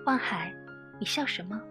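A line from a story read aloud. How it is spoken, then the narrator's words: Smiling. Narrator (Chinese): 望海微笑着说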